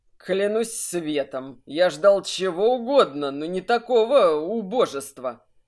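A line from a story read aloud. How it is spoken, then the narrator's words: Through teeth, hostile laugh. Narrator (Russian): Процедил Ханг и неприязненно рассмеялся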